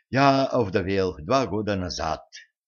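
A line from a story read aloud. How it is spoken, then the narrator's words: Sighed. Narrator (Russian): вздохнул Йоханнес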